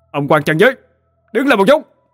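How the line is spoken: Shouting. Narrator (Vietnamese): Anh Hùng quát

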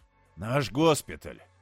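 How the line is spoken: Hoarse, ironic. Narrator (Russian): В его охрипшем голосе появились иронические интонации

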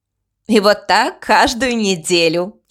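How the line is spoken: Giggling girl. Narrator (Russian): хихикнула вторая девушка

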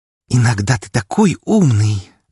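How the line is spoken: Hot breathy exhale. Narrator (Russian): жарко выдохнула Фокси

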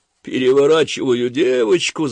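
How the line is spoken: Laughing loudly. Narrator (Russian): захохотал

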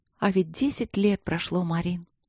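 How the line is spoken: Soft and dreamy. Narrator (Russian): сказала она тихо и мечтательно

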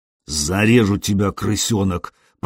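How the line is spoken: Menacing hiss. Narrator (Russian): прошипел волосатый

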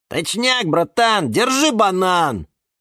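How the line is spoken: Yelling. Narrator (Russian): завопил банан Степан

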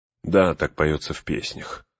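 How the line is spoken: Weary. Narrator (Russian): устало отвечал Эомер

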